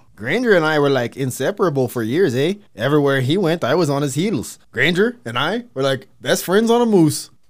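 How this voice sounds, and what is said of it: Put-on Canadian accent. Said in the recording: “They said it with an accent.”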